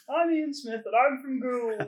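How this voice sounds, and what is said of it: Imitates another person's voice, higher-pitched. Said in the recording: “do an impression of you ... I feel you've made me higher than I am.”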